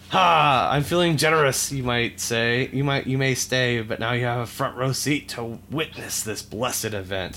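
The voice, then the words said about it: Gruff villain character voice. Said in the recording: “I'll do the voice of Bowser.”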